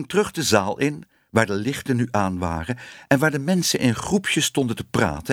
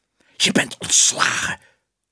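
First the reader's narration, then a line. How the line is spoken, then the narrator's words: Quick hiss. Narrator (Dutch): siste meneer Ellemeet nog gauw tegen Willem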